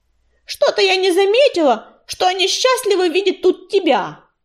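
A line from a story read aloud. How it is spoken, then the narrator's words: Shout. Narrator (Russian): выкрикнула она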